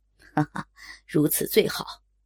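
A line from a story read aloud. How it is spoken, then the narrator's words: Leering laugh. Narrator (Chinese): 淫笑着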